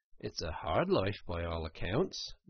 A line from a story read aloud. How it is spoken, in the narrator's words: murmured the rat, sunk in deep thought